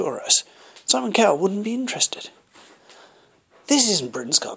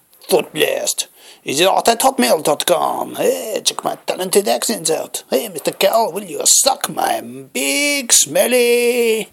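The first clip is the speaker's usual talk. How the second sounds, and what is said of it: Put-on French accent. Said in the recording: “I suppose I could say it in a French accent”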